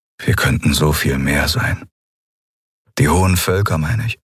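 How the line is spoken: Sad voice. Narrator (German): Er klang traurig, als er sagte

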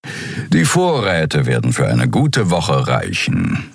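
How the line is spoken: Purring. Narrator (German): schnurrte Suran

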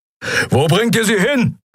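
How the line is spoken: Roared. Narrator (German): brüllte Keru

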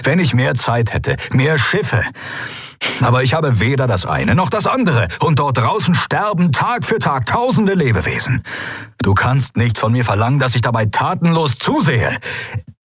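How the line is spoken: Barked. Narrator (German): bellte er

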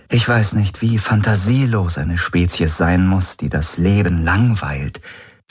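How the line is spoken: Plain. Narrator (German): sagte Ylana

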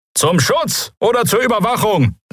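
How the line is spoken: Call. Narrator (German): rief jemand

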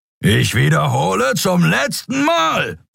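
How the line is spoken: Roared. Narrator (German): brüllte Thron

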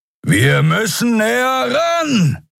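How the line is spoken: Shouting over howling wind. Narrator (German): rief Kero über den heulenden Fahrtwind

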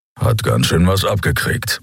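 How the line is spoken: Grumbled. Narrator (German): brummte Keru

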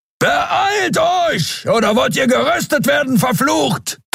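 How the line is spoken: Thundering. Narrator (German): donnerte Keru

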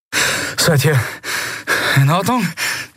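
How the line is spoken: Panting. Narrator (German): keuchte Kai

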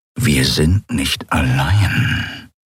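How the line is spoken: Growl. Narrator (German): knurrte er

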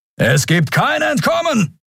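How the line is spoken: Booming thunderous shout. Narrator (German): donnerte ein narbengesichtiger Mensch am anderen Ende

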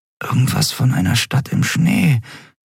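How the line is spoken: Murmured. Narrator (German): murmelte Endriel

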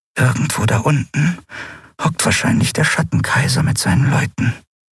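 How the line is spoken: Fearful whisper. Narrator (German): flüsterte, als fürchte sie, der große Unbekannte könne sie hören

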